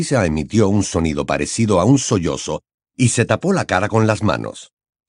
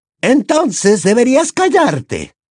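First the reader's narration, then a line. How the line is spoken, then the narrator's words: Snapped retort. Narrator (Spanish): le espetó Bellatrix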